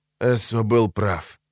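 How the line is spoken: Rasped. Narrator (Russian): прохрипел Дер

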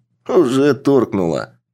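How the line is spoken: Amused snort. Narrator (Russian): хмыкнул Андрей

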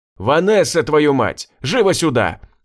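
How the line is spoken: Yelling even louder. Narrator (Russian): заорал еще сильнее

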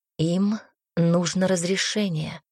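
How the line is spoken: Prince whispering. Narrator (Russian): шепотом произнес принц

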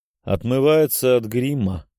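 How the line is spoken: Dry, through teeth. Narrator (Russian): сухо процедила графиня

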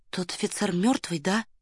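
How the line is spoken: Whispered question. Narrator (Russian): шепотом спросила Варя

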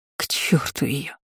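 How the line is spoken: Countess growling. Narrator (Russian): рыкнула графиня

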